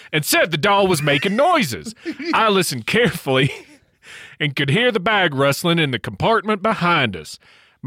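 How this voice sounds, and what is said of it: Put-on Australian accent. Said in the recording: “Yeah, I've got the right accent ... yeah, an Australian accent.”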